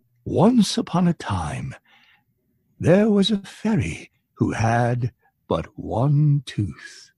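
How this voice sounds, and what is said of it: Storyteller voice for children's book. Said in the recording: “a voice I do when I do children's book, like The Toothless Fairy, in my storyteller voice”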